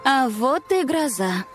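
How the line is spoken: Sighing. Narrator (Russian): вздохнула Варя

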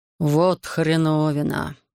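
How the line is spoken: Annoyed mutter. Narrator (Russian): досадливо буркнул Марцис

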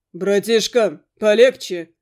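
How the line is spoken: Nearby bark. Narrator (Russian): Вдруг рявкнул рядом голос Макса

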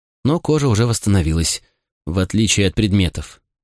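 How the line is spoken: Sad. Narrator (Russian): грустно добавила Ани

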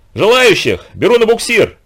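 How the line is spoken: Shout. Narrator (Russian): крикнул Семка

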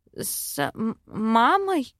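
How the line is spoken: Stammering. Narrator (Russian): заикаюсь я

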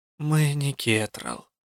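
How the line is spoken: Weary, curt. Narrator (Russian): устало бросила я

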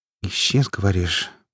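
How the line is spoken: Muttered. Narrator (Russian): пробормотала она

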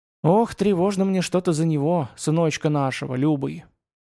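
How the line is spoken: Heavy anxious sigh. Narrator (Russian): Тяжко вздохнула чародейка

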